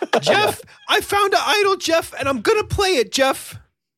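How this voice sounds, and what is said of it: Imitates a Muppet rat character. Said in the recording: “Is that your Rizzo impression? ... It was a perfect Rizzo impression. ... Rizzo the rat from the Muppets”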